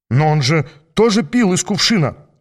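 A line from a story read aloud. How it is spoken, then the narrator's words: Exclaimed. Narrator (Russian): воскликнул Хиггинс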